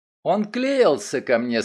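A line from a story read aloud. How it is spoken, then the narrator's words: Angry, twisted lips. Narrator (Russian): сказала Фрэнси, зло кривя губы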